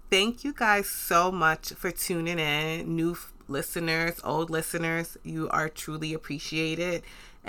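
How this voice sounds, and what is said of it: New York accent. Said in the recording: “For those that can't tell from my accent or know, I reside in New York”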